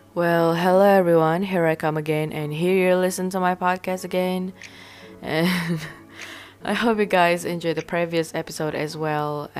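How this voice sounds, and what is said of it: Deeper voice, sounds unwell. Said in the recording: “my voice is different from before and my voice is deeper than before because I'm not feeling well lately”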